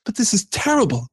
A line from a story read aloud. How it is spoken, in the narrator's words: cried Frodo